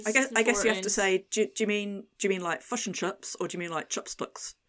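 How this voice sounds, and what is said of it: English speaker doing Kiwi accent. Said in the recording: “your accent made it sound really horrible ... English person doing a Kiwi accent”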